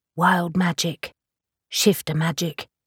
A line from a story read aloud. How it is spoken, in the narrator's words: she said softly